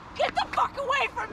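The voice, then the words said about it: Screaming. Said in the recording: “screaming”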